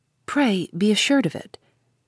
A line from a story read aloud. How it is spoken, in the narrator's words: he made that brief reply warmly